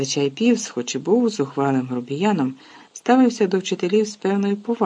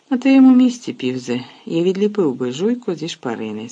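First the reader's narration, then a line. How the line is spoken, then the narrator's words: Calm. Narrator (Ukrainian): спокійно мовив він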